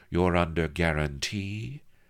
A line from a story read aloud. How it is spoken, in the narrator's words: she drawled at Avery